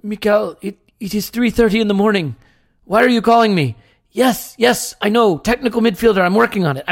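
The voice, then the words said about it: Put-on accent voicing Edu. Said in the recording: “I don't know what that accent was. Just go with it.”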